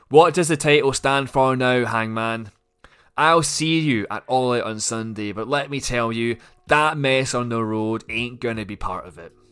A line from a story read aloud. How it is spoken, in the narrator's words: The non-champion shouts into the camera